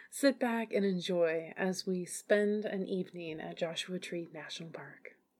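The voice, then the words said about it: Smooth FM radio announcer voice. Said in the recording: “back in my FM voice. ... FM voice.”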